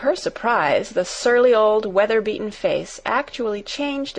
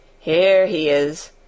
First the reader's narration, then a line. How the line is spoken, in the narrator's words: chuckled the old man